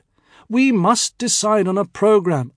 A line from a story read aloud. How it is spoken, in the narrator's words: I pleaded